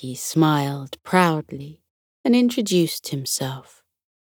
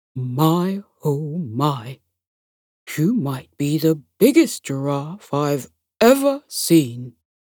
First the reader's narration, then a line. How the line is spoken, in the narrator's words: The gorilla commented in a deep, husky voice